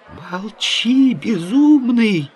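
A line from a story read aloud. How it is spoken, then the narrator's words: Frightened howl. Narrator (Russian): взвыл, наконец, перепуганный башмачник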